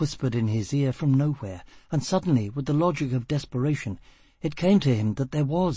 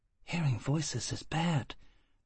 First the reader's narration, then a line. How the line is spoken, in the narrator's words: the furious angel murmured